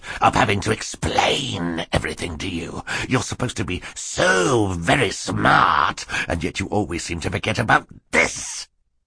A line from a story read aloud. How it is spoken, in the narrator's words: Stefano snarled